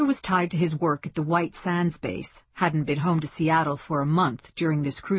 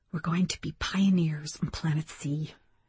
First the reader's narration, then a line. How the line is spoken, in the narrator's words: whispered